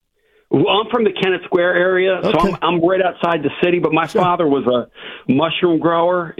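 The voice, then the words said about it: Philly South Jersey accent. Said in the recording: “do I detect some Philly, South Jersey in that accent? ... You got it, brother.”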